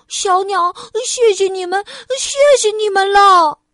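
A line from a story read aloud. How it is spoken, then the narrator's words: Breathless, panting. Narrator (Chinese): 菲儿气喘吁吁地说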